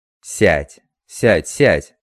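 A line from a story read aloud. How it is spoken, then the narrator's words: Irritated shouting. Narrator (Russian): Раздраженный ее медлительностью, закричал он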